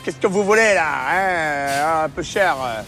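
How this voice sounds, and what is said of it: Grumpy French Ardennes accent. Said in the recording (French): “C'était un accent de quelle région de France, là? ... j'ai fait l'Ardennais français pas content”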